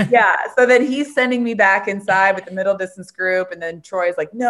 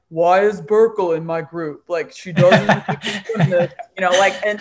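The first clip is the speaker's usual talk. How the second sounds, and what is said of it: Impression of Nesty. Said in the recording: “great Nesty impression”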